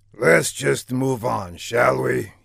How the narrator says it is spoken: finally muttered

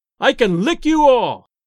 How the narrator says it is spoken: bawled in a far-reaching voice

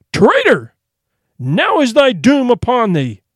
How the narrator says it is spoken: the king, his heart nigh broken with grief for the loss of his true knights, cried with a loud voice

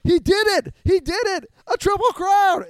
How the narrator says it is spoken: he screams across the street at me

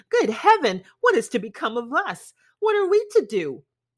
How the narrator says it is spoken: exclaiming, the bitterness of woe

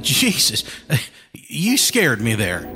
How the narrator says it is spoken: Jefferson said with a nervous laugh

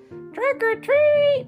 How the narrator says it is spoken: shouted a scary witch

